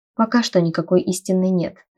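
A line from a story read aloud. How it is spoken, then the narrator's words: Plain. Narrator (Russian): ответил он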